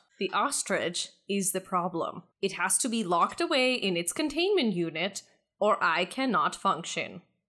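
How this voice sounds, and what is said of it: Van Helsing-style character voice. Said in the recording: “I'm talking like Van Helsing.”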